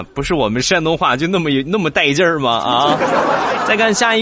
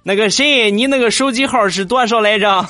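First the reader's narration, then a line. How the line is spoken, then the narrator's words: Shouting in regional dialect. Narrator (Chinese): 他用标准的山东话对那个人喊道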